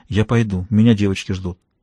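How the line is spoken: Whispering. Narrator (Russian): прошептала

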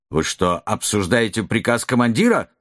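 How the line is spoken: Harsh curt retort. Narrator (Russian): грубо обрезал лейтенант Безгин

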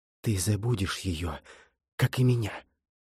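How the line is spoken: Whispered reply. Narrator (Russian): шепотом ответила Миранда

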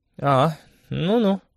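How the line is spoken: Drawn-out, young woman. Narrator (Russian): протянула девушка

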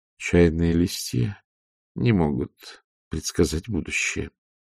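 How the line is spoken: Quiet. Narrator (Russian): тихо сказала матушка

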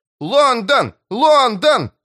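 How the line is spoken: Shouting with crowd chorus. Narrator (Russian): закричал Том, вплетая свой голос в общий хор зрителей

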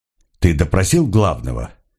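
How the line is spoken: Curt question. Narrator (Russian): отрывисто спросил он

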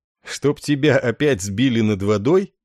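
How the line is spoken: Laughing question. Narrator (Russian): рассмеявшись, спросил Ессарин

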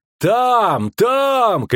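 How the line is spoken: Shouted. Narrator (Russian): крикнул второй

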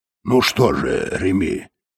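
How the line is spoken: Cheerful purr. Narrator (Russian): весело промурлыкал Тиббинг

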